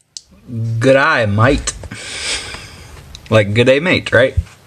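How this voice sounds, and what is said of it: Put-on Australian accent. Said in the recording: “what you're saying in an Australian accent ... tell me what your Australian accent sounds like”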